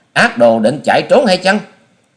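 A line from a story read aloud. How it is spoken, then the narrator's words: Shrill girl's shout. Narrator (Vietnamese): Thiếu nữ quát lên lanh lảnh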